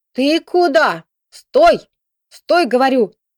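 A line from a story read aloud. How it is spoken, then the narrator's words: Grandmother shouting. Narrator (Russian): кричала бабушка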